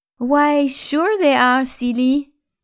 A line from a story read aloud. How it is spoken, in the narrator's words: giggled Hélène